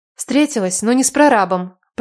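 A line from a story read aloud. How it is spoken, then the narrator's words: Through gritted teeth. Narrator (Russian): процедила я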